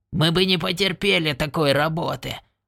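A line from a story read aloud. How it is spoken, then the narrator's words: Grumbling. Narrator (Russian): проворчал он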